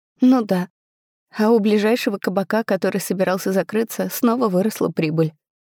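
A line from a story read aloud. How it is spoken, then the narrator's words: Sobbing. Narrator (Russian): всхлипнула я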